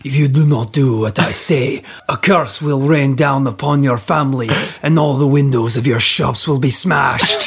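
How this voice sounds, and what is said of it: Attempted Russian accent, sounds Scottish. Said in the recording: “I like the way you've just gone Scottish. ... I need to work on my Russian accent.”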